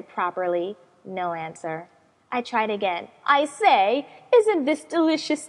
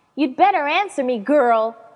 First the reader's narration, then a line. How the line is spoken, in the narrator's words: I shouted